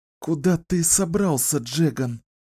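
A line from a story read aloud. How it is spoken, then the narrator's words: Strained, forced out. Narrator (Russian): сумела выдавить Кэлен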